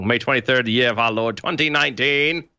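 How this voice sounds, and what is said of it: Deliberately bad British accent. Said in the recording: “trying for a very terrible British accent ... trying to intentionally be bad”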